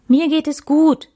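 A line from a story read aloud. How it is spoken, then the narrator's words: Called out. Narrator (German): rief Max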